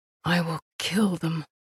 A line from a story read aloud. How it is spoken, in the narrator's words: whispered